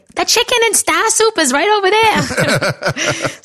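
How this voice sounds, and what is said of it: Thick Boston accent imitation. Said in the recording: “my grandma had a really thick Boston accent”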